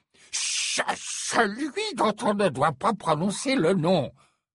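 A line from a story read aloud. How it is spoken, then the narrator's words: Growled. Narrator (French): gronda Fudge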